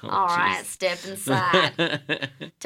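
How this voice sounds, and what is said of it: Put-on rural Kentucky accent. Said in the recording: “I like this accent a lot. ... I'm channeling like the the, the abortionist in the oh, hills man. of Kentucky. ... That's probably how they sound.”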